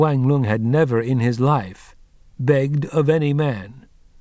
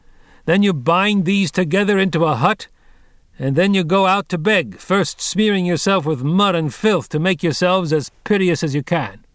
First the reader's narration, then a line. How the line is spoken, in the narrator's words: said more loudly still, raising his voice above the din of the iron wheels beneath him